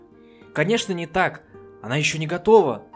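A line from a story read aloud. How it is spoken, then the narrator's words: Filly's exclamation. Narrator (Russian): воскликнула кобылка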